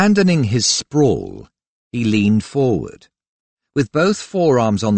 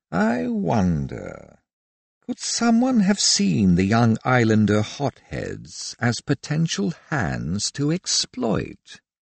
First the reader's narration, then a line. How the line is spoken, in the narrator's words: he murmured